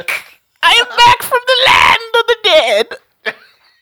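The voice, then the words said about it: Character voice. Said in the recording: “the Snack voice”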